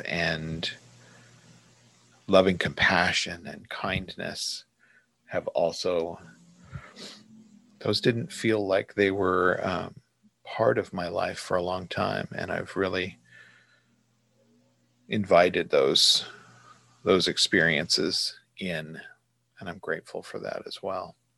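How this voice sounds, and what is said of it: Slightly teary, emotional voice. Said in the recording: “I'm almost a little teary-eyed talking”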